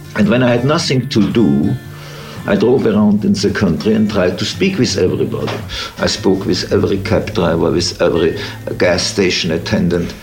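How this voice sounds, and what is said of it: German accent. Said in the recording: “the German accent”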